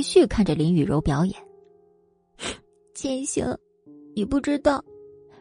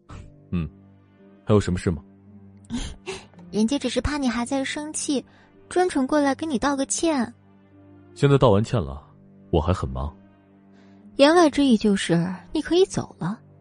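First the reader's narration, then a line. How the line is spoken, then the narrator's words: Cool, indifferent. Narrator (Chinese): 莫千行便淡淡的嗯了声，随后道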